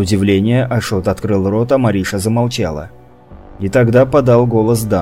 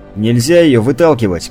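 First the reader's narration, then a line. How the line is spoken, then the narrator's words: Shout. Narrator (Russian): крикнул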